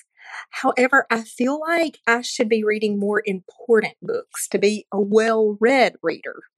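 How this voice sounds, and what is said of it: Southern American accent. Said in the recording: “Southern accents are different depending on your state, but your beautiful voice reminded me so much of going to college in Alabama”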